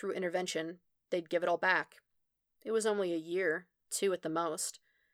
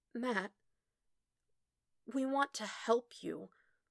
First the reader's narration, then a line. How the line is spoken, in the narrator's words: he croaked out